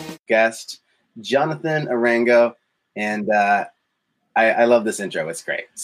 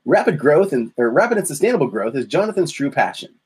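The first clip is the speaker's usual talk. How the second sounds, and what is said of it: Put-on radio announcer voice. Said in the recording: “I'm gonna lean into the microphone for my radio voice for this one”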